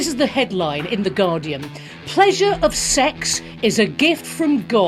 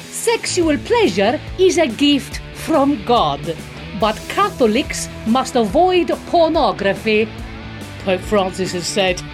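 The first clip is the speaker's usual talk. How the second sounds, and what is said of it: Put-on Italian accent. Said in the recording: “I'm going to read it in an Italian accent just to be even more offensive.”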